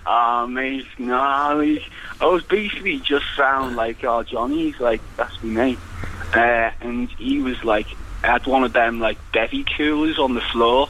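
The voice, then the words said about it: Liverpool accent. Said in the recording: “it sounds like you're from Liverpool”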